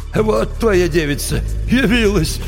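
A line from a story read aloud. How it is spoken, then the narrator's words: Laughing remark. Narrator (Russian): хохотнул Кощей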